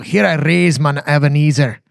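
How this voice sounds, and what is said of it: Put-on Scottish accent. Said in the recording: “You've got to say it with a Scottish accent. ... Can you sing it in that accent?”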